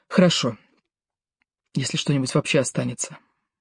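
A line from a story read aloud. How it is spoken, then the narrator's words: Quiet. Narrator (Russian): тихо сказала Ева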